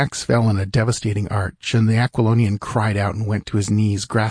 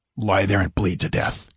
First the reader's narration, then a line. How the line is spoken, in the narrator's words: grunted